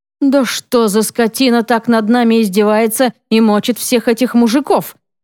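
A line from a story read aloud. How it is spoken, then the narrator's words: Angry hissing blurt. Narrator (Russian): Зло выпаливает Мертонин, и слова с шипением вылетают из его напряженного рта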